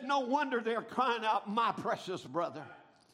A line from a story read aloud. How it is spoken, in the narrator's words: the multitude cried out